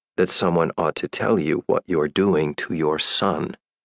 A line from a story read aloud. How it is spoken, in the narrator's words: said Ellen coldly